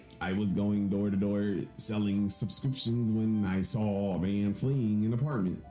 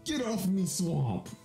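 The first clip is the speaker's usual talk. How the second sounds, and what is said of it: Shrek impression. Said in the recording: “What if I try Shrek?”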